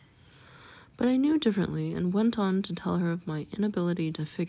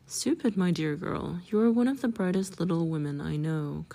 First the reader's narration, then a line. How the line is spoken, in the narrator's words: kindly comforted Mrs